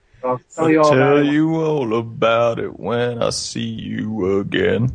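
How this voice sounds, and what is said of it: Sings, imitating another person's voice. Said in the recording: “my Vin Diesel impression ... singing that song”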